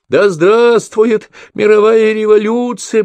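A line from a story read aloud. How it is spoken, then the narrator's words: Pickpocket yelling. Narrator (Russian): орал карманник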